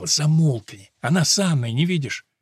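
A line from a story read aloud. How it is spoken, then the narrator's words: Hissed. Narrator (Russian): Альберто прошипел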